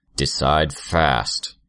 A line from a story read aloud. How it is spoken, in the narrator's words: Armsmaster growled